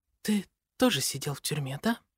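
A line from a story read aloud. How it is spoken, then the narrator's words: Very quiet. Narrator (Russian): Ее голос звучит очень тихо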